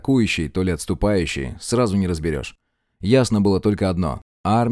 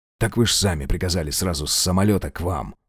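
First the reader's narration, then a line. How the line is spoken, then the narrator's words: Grumbled mutter. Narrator (Russian): буркнул Самойлов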